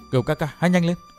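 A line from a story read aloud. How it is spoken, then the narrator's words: Soft whisper. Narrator (Vietnamese): Tiểu Tây Thi khẽ thầm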